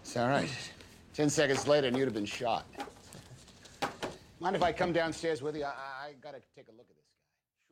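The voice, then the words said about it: Boston accent. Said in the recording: “I don't know that Tom Hanks needs to use a Boston accent, though.”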